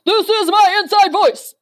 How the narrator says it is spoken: the warrior yelled

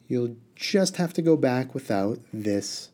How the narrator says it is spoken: Harun said sweetly

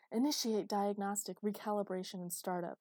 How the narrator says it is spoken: screamed

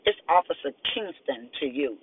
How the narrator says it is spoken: she remarked hotly

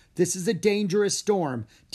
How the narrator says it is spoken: Diego yelled

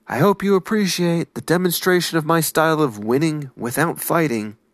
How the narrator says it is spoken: The older samurai shouted back

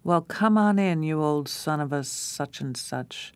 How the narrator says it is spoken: booming out

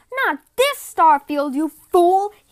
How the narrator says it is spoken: shouted

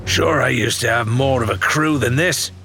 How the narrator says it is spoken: he grumbled

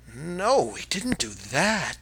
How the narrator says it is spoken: the children gasped

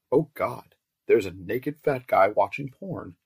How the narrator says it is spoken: I exclaimed

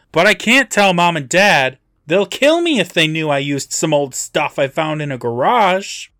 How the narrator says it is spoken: he loudly continues

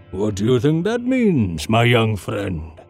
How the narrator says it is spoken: He bellowed

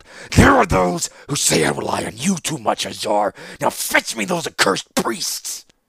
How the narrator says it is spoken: growled

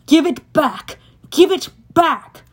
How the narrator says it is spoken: Over the roar of the storm, I could hear the blue-robed one yelling at the green-robed one

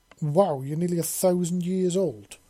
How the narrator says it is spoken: Alex exclaimed

